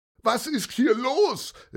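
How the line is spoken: Called out. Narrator (German): rief Herr Otto

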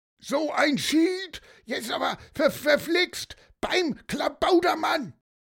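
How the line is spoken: Shouted by fisherman. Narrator (German): Wer da so schrie, das war der Fischer

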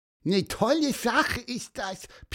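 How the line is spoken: Squeaky voice. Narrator (German): piepste Pieper

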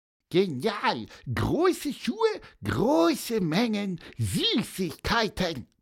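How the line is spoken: Squeaky voice. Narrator (German): piepste Pieper

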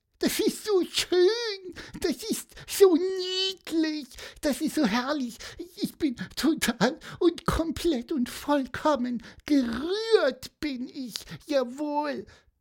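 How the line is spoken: Squeaky voice. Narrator (German): piepste

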